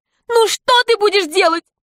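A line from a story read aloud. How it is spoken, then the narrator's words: Exclamation. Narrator (Russian): воскликнул человек в очках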